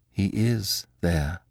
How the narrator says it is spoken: said Beautrelet in a hollow voice

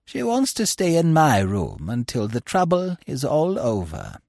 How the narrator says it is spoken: she said in her refined, sweet voice

